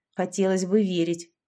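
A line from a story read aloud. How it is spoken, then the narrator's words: Curt mutter. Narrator (Russian): буркнула я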